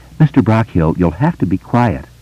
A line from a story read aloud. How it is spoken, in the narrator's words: said kindly enough